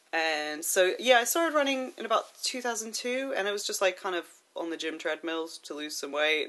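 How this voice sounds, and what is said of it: American accent. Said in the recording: “You may have noticed from my accent, I'm not from around here. I'm originally from the States”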